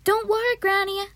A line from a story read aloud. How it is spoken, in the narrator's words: I shouted at her